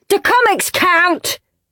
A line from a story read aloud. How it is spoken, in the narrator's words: shouted Rude Ralph